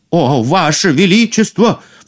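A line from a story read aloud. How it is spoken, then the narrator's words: Cook crying out. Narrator (Russian): вскрикнул повар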